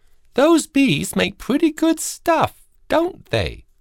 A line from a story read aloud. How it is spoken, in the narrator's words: she chirped up